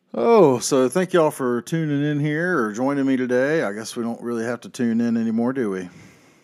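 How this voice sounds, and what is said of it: Deep, tired morning voice. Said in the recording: “if I sound a little bit tired or like I'm trying to sound a little Barry White and sexy ... my voice is a little deep in the morning”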